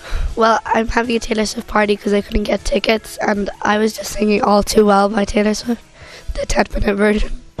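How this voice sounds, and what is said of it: Hoarse, lost voice. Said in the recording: “lost your voice”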